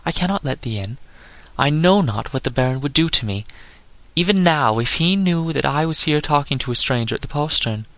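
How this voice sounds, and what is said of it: Frightened young woman's voice. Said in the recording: “said the lass in a frightened voice”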